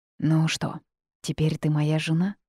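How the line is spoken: Whisper. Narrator (Russian): прошептал Джейс

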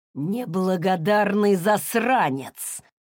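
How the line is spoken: Hiss. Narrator (Russian): прошипел Уилл

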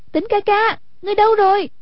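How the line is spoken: Worried calling out. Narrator (Vietnamese): Hoàng Dung nghe giọng Quách Tĩnh trong lòng lo lắng, kêu lên

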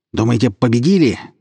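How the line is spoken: Angry shout. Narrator (Russian): злобно выкрикнул Митяй

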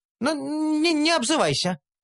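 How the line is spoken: Squeaky little voice. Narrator (Russian): пискнула гномка

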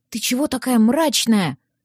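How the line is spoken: Whisper. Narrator (Russian): прошептала она

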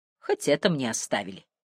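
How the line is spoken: Gloomy. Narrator (Russian): мрачно произнес Браун

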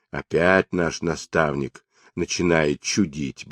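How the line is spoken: Muttering. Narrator (Russian): бормотал он

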